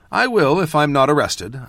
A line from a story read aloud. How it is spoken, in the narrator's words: I said dryly